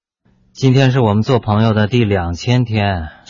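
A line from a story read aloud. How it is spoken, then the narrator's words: Flat, indifferent. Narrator (Chinese): 金小骚淡淡的说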